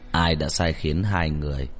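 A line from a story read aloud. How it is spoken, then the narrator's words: Cold menacing voice. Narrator (Vietnamese): Một người đàn ông mặt lạnh như tảng băng nói với giọng chứa đựng trùng trùng nguy hiểm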